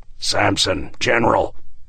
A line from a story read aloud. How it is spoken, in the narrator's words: he managed to mutter